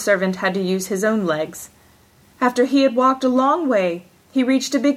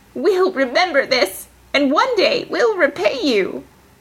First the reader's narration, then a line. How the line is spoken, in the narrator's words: cried out